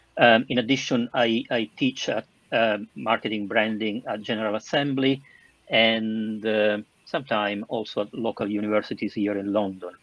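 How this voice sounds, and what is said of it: Southern Italian accent. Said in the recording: “I'm Italian, as you can probably understand from my southern accent.”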